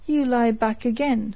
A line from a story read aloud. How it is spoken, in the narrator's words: cried the sergeant fiercely